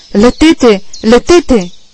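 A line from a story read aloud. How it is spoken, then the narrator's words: Shout. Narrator (Bulgarian): викна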